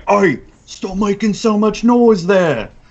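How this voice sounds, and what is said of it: Character voice with shifting accent. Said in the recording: “now my accent changed again.”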